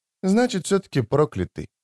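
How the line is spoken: Muttered. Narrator (Russian): пробормотала Дымка

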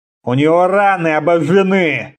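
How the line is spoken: Grumbling. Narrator (Russian): проворчал Конан

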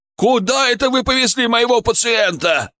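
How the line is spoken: Yelling. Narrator (Russian): орал Ярасов

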